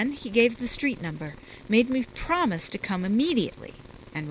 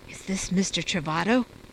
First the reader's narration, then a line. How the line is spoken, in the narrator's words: she murmured